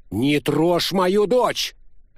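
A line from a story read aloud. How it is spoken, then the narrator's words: Barked. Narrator (Russian): рявкнул Томази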